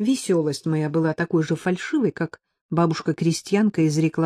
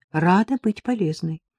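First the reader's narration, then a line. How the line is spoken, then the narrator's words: Cheerful. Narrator (Russian): ответила я весело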